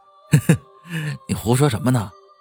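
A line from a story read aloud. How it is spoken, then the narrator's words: Laughing. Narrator (Chinese): 小霍笑着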